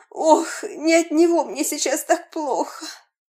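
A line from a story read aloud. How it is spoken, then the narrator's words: Loud moaning. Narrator (Russian): Стонала она еще чаще и громче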